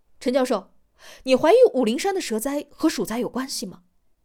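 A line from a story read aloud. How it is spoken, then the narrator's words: Loud question. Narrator (Chinese): 王栋 大声的问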